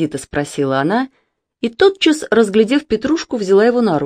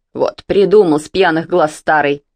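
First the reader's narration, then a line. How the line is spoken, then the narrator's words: Grumbled. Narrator (Russian): проворчала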